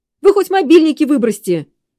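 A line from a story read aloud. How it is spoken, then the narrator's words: Shouted. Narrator (Russian): крикнул Серджио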